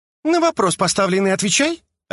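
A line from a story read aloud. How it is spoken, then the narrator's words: Girl snapping. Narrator (Russian): огрызнулась девушка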